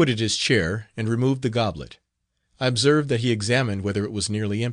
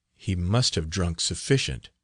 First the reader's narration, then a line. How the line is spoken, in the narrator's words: said he to his brother in a low voice